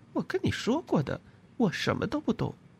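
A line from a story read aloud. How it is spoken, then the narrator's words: Soft. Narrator (Chinese): 他轻声说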